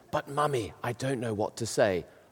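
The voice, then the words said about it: Loud child's stage whisper. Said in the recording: “he whispered in that kind of whisper that little children do where everybody can hear it”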